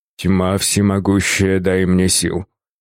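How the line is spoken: Old man muttering. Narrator (Russian): пробормотал старик

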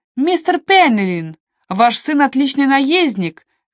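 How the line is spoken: Shouted across table. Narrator (Russian): крикнула из-за стола Сидни

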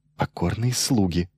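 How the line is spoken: Whispered suggestion. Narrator (Russian): шепотом предложил Майлз

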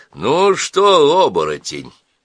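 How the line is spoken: Loud. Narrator (Russian): сказал громко

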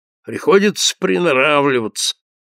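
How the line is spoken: Grumbling priest. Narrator (Russian): ворчал священник

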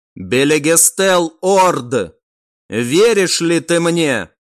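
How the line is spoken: Loud, formal. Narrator (Russian): В официальном тоне, громко произнес некромант

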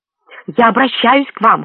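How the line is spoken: Hoarse hiss. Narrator (Russian): хрипло прошипел Ив

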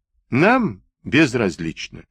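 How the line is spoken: Plain. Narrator (Russian): ответил Уилки

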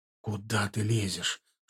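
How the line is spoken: Whispered rebuke. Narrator (Russian): шепотом одернул его я

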